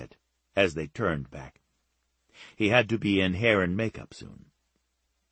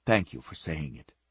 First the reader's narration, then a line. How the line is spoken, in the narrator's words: she said softly